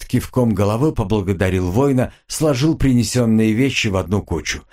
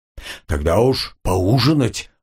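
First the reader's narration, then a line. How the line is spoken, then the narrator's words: Guilty addition. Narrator (Russian): Буйвол виновато добавил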